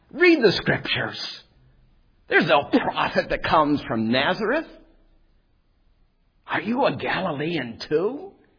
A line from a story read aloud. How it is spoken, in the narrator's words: the religious leader scoffed